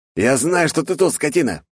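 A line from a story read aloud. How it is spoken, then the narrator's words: Loud shout after deep breath. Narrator (Russian): прокричал он, вдохнув в грудь побольше воздуха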